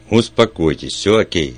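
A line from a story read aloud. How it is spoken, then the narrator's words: Loud. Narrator (Russian): сказал я ей громко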